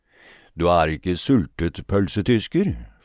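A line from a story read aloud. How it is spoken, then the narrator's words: Sneering grin. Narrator (Norwegian): flirte han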